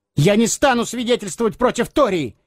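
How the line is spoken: Blurted shout despite fear. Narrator (Russian): выкрикнул Эггерт раньше, чем страх успел зажать ему рот

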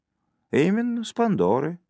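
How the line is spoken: Plain. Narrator (Russian): сказал он

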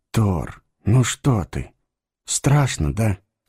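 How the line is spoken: Soothing whisper. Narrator (Russian): прошептал он, успокаивая

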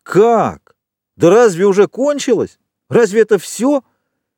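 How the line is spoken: Crowd shouting together. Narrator (Russian): Человек 20 закричали разом

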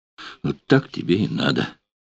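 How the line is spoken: Gloating mutter. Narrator (Russian): И время от времени злорадно бормотала

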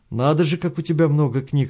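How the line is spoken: Plain. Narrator (Russian): сказал он

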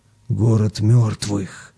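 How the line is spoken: Loud whisper. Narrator (Russian): Сергеич громким шепотом сказал

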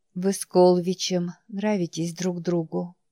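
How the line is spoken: Whisper. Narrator (Russian): прошептала она

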